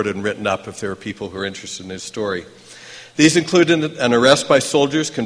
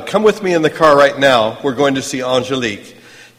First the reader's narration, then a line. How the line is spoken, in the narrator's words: He shouted